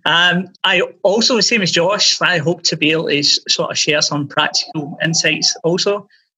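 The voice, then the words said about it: Glaswegian Scottish accent. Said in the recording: “I'm originally from Glasgow, just in case you're wondering if this is an Aussie accent.”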